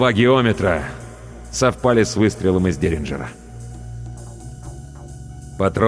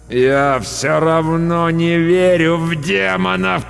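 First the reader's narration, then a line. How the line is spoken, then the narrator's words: Groaning. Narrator (Russian): простонал я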